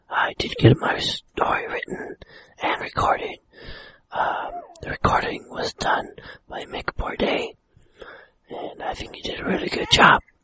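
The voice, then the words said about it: Hoarse, nearly lost voice. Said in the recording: “lost my voice. So I'm impersonating Linda, as Linda sounds when she lost her voice.”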